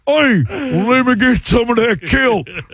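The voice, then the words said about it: Goofy redneck fish character voice. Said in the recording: “it looks like they're wearing fake redneck teeth ... That's my impression of a fish”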